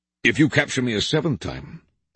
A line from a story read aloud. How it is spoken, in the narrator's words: the king replied